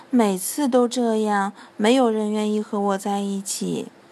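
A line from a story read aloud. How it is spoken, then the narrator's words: Sighing, quiet. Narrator (Chinese): 小狼叹了口气，低声说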